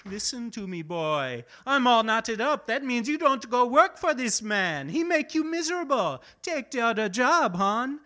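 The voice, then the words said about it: Fake exaggerated foreign accent. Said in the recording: “a totally fake late-night TV third-world accent”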